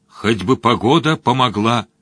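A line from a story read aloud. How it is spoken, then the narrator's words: Hopeful mumble. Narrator (Russian): с надеждой пробормотал Мадж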